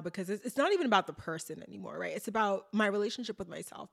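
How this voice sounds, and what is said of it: Emotional, close-to-tears voice. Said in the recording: “getting emotional now”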